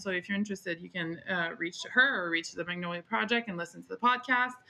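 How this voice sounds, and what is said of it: Slight foreign accent in English. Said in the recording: “if you want to hear my little accent and some exotic words here and there”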